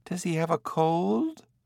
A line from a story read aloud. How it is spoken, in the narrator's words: a woman asked nervously